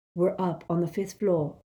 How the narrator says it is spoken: he whispered

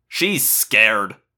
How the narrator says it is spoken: Marco sneered

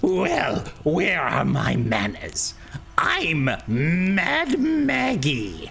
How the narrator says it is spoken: the hag cackles, hearing that, and says

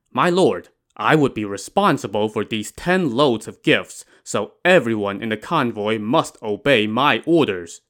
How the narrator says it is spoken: Yang Zhi said

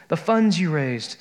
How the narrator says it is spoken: said Betsy

